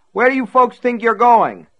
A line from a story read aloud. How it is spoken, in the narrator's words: he shouted